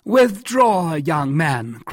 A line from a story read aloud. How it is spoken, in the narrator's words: cried Jussac